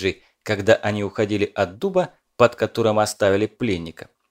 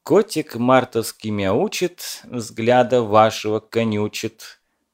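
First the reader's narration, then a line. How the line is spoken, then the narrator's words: Purred under breath, smiling. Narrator (Russian): промурлыкал под нос Кузнецов, с улыбкой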